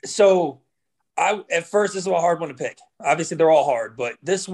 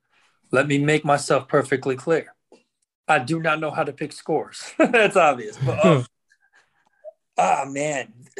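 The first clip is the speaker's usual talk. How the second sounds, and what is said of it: Imitates another person's voice. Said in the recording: “My Stephen A. impersonation.”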